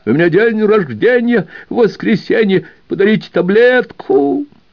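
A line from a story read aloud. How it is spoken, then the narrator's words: Brief howl, shouting. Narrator (Russian): старик взвыл коротко и закричал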